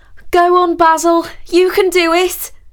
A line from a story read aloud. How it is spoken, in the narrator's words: Sally called out